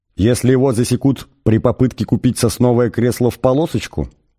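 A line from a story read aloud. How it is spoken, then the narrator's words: Plain. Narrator (Russian): спросил Артур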